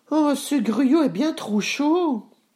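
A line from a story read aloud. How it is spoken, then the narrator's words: Exclamation. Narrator (French): s'exclama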